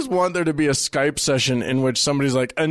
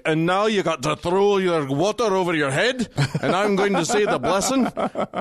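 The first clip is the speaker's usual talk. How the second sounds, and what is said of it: Put-on Scottish accent. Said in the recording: “It's terrible Scottish dialect, ... It's not bad though.”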